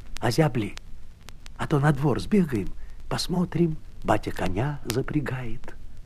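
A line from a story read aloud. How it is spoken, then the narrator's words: Whisper. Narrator (Russian): Прошептала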